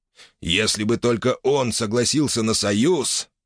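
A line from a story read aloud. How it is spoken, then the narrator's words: Angry through clenched teeth. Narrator (Russian): процедил майор зло сквозь зубы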